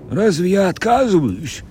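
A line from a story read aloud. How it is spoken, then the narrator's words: Grumbling. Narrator (Russian): проворчал второй боцман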